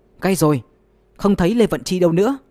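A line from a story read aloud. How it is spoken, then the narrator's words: Calling out. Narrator (Vietnamese): Giản Tự Viễn kêu lên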